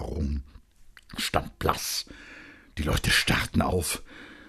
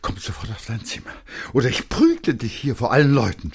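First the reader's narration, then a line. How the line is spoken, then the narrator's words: Hoarse stammering. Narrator (German): stammelte heiser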